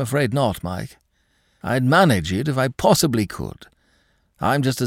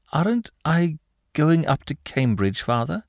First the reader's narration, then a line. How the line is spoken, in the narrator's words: stammered Mike